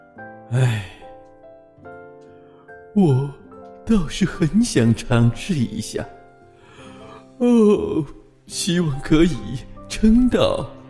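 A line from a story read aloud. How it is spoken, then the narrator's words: Heavy sigh. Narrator (Chinese): 贝尔熊重重的叹了口气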